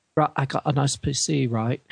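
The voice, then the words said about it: Poorly done chav accent. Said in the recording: “chavs sitting at desks going ... I completely butchered the accent.”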